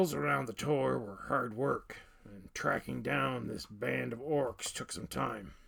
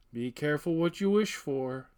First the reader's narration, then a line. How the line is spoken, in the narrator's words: said Garland